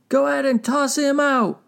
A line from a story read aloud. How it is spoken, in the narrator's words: shouted Fox